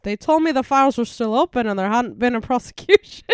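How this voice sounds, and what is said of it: Put-on Irish accent. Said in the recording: “I'm from Dublin. Can't you hear my accent?”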